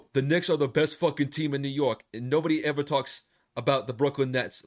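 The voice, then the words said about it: Put-on New York accent. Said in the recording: “I know that's not really my best impression of like a New Yorker. I'm not really from New York”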